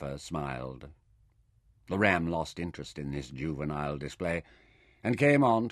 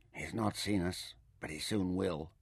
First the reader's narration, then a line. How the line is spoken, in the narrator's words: Nefer whispered